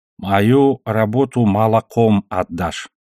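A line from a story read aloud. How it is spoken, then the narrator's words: Plain. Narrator (Russian): сказал ей Бабай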